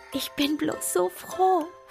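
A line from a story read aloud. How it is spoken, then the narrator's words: Soft whisper. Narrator (German): flüsterte leise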